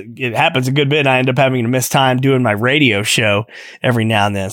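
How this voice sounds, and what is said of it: Hoarse, fading voice. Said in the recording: “my voice is kind of giving out on me a little bit ... had a little bit of a cough ... I end up losing my voice”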